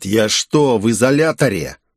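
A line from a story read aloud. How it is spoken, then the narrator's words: Growling. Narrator (Russian): я прорычал в ответ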